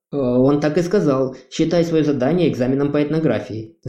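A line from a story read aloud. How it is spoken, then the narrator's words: Breathless rapid chatter. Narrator (Russian): захлеб тараторил плацебо проворный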